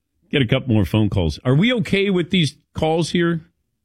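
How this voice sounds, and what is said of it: Usual voice. Nothing is said of it.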